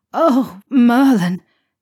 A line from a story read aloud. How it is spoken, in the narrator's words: he groaned